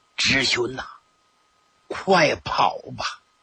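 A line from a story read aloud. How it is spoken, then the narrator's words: Low urgent voice. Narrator (Chinese): 压低了声音说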